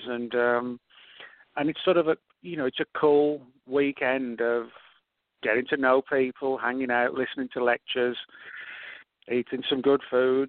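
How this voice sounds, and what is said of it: Foreign, non-American accent. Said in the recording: “the listeners can tell just by your accent that, you know, you bring a international perspective”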